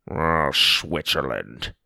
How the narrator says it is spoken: grumbled

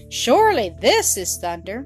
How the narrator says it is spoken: the goat cried

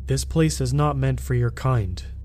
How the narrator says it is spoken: he said

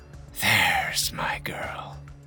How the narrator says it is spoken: Her eyes were heavy-lidded as she whispered

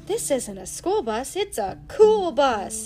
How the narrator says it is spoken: exclaimed

